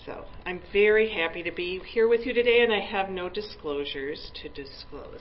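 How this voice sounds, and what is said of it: Wisconsin twang accent. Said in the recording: “you're going to get my Wisconsin twang”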